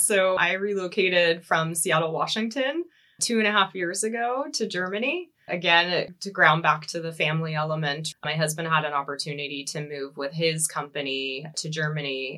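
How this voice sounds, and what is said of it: American accent. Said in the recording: “I do come from the US, if you can't tell from the accent.”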